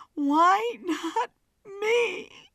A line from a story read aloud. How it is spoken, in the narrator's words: Blake gasped